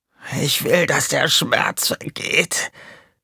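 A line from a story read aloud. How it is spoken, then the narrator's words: Croaked. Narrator (German): krächzte er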